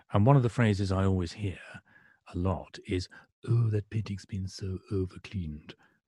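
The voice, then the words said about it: Brian Sewell impression. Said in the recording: “That's a Brian Sewell impersonation. It was very, very good.”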